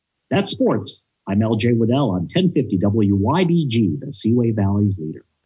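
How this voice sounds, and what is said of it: Polished radio announcer voice. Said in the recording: “you have such a good radio voice.”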